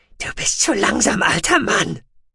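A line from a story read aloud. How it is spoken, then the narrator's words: Panting. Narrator (German): keuchte Jaga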